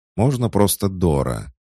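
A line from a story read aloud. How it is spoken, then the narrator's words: Snapping retort. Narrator (Russian): явно огрызнулась эльфийка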